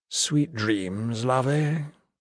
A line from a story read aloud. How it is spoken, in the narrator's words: offering only a slurred